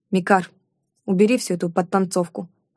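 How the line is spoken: Sharp curt command. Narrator (Russian): резко бросила

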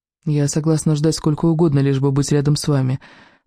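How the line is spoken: Trembling, faltering babble. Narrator (Russian): дрожащим голосом пролепетала Иза

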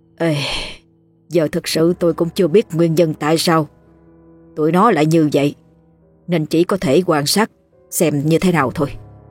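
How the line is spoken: Sighing man. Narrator (Vietnamese): ông thở dài nói

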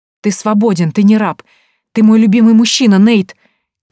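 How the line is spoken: Shout. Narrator (Russian): крикнула

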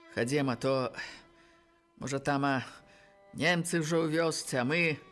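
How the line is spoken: Grumbled. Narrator (Belarusian): Раман Сёмачкін буркнуў

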